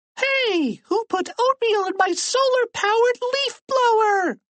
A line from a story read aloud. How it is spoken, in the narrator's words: people shouting